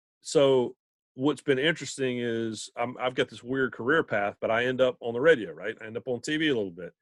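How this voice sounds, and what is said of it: Male speaker with Southern American accent. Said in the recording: “I think the Southern accent's going to play ... If you were a male with a Southern accent, there was something wrong with you ... it was my accent ... you can't be on TV or be on the radio and sound like you sound”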